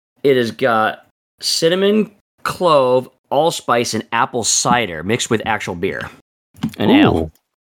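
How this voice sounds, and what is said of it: Slightly hoarse voice. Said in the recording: “my allergies are bothering me, so I'm a little hoarse.”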